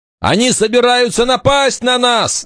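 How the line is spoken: Alarmed shout. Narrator (Russian): закричал Вольф

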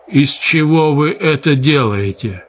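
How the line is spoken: Strained, forced out. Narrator (Russian): кое-как выдавил из себя он

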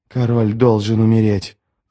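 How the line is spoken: Male hiss. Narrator (Russian): прошипел он

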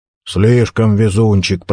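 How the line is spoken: Grumbling. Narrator (Russian): проворчал Ховард Карнс

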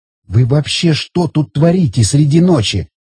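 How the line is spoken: Woman hissing. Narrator (Russian): зашипела женщина

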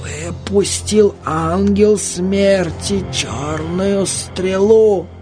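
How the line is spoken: Loud whisper, old woman. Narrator (Russian): громко шептала старуха

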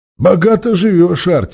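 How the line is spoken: Smirking grunt. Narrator (Russian): хмыкнул Памбикус

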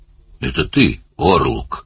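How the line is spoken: Wooden voice. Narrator (Russian): начал он деревянным голосом

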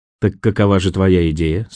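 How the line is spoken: Plain. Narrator (Russian): спросила она

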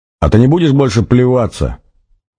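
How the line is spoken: Shout. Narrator (Russian): выкрикнул он

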